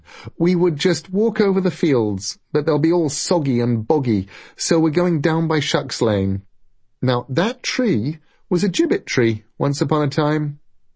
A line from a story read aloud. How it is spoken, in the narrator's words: said Moira, raising her voice to be heard over the rain